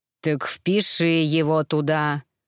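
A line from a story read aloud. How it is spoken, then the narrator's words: Threatening growl. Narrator (Russian): угрожающе прорычал лос-анджелесский вампир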